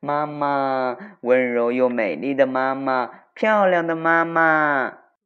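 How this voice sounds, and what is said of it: Sweet, honey-like coaxing voice. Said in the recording (Chinese): “用甜的像蜜糖一样的声音说”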